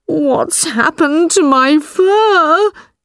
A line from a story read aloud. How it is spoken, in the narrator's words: he cried